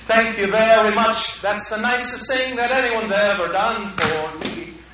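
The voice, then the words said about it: Put-on English accent. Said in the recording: “they're England, so they got this weird accent.”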